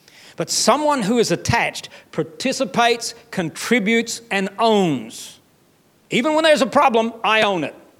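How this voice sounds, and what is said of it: Unusual accent. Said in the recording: “even my weird accent”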